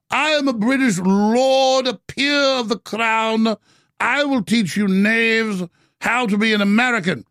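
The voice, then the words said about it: Affected British aristocratic accent. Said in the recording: “I have an affected British accent.”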